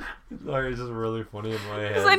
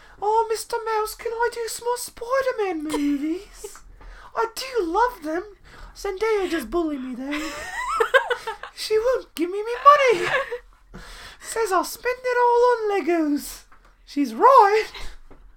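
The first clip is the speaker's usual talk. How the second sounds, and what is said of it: High-pitched British-accented imitation. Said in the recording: “little Tom Holland has a British accent always ... Why is Tom Holland so high-pitched today?”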